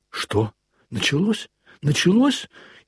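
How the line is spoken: Frightened. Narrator (Russian): испуганно проговорил

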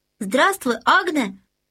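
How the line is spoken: Shout. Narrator (Russian): крикнул ей Людвиг XIV

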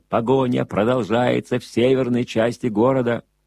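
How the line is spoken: Announcer shouting. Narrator (Russian): Голос диктора кричал

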